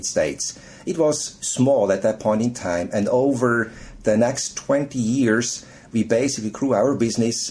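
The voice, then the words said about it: Foreign accent. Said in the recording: “you have a delicious accent.”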